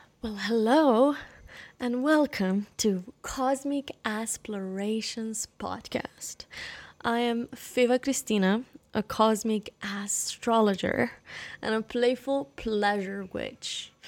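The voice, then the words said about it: Weird unusual speaking voice. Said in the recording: “I do not always talk in this weird voice.”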